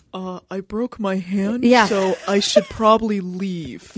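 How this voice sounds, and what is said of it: Impression of Clay. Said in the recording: “That's the best impression of him ever.”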